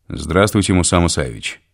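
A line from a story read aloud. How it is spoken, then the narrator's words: Cold, formal. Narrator (Russian): холодным официальным тоном сказал он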